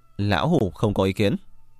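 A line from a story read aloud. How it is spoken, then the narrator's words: Raised voice. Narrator (Vietnamese): Đinh Chiêm Quốc cất cao giọng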